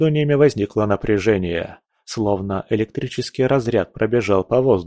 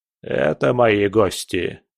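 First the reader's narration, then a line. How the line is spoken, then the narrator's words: Cold reply. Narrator (Russian): холодно ответил Волынский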